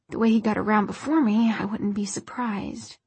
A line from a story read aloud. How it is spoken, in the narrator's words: he added, half under his breath